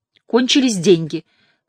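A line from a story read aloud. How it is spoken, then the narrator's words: Louder, angrier than intended. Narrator (Russian): сказала она погромче, более сердито, чем ей хотелось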